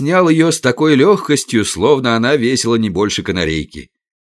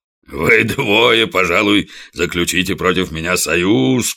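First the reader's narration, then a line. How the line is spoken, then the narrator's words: Booming voice. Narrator (Russian): прогудел он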